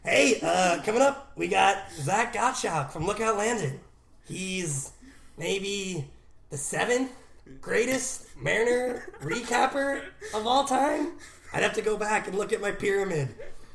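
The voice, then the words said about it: Imitates another person's voice. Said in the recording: “do a Bill Simmons voice”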